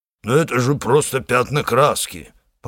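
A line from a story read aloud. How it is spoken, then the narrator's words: Hoarse complaint. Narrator (Russian): пожаловался он с хрипотцой варвара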